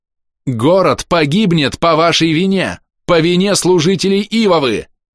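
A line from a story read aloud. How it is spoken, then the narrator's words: Shouted. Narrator (Russian): крикнул я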